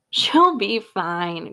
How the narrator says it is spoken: Grandpa laughed

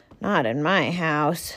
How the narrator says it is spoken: sighed Mr

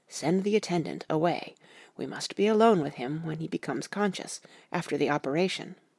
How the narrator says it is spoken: he whispered to me

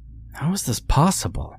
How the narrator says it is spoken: Jack asked anxiously

